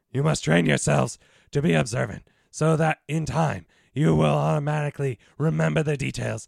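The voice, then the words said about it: Weird put-on character voice. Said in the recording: “Now I'm going into more of a weird voice.”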